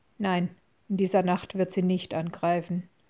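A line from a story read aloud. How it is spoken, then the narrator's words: Toneless answer. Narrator (German): antwortete Aslan mit tonloser Stimme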